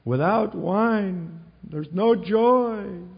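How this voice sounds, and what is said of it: Weak put-on Jewish accent. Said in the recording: “I don't do a very good Jewish accent”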